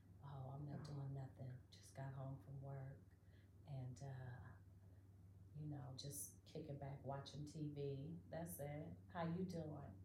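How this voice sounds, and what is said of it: Low, sexy male voice. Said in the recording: “he's talking with this low, sexy voice.”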